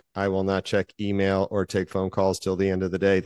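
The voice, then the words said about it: Robotic voice. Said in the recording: “That's my robot voice.”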